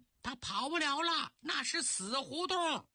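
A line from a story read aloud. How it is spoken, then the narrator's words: Local villager shouting. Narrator (Chinese): 有位当地老乡喊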